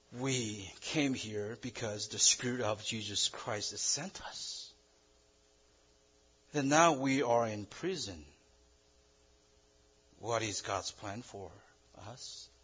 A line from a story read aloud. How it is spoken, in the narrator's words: must have murmured like this